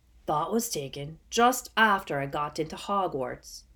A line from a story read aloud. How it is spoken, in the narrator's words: Hagrid croaked